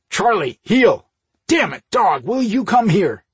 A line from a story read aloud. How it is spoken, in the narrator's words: he ordered in a sharp voice